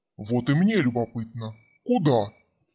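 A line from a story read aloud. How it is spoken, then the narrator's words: Quiet, silky, suppressed growl. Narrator (Russian): прозвучал тихий, вкрадчивый голос, в недрах которого угадывалось едва сдерживаемое рычание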